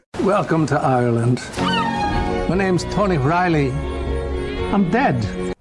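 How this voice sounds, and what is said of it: Very poor put-on Irish accent. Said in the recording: “an Irish Christopher Walken ... everyone's accents, but his was truly the worst”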